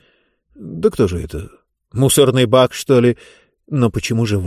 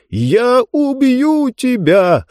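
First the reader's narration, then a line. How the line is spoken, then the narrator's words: Yelling. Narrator (Russian): снова заорал Мурготроид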